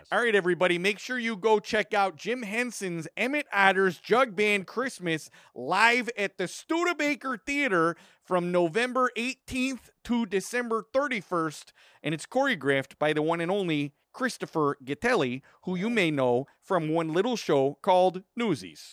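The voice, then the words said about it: Put-on Chicago accent. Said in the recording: “I'm going to read this now with a Chicago accent. ... That was pretty good Chicago accent. ... That was pretty solid. It's almost like you're from there.”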